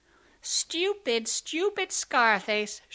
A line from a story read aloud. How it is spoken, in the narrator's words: shrieked the sisters